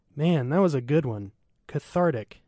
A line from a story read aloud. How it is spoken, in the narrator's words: he said